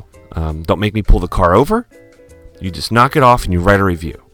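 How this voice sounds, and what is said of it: Stern scolding dad voice. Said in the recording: “dad voice”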